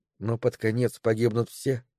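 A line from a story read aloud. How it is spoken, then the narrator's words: Quiet question. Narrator (Russian): тихо спросила Мэри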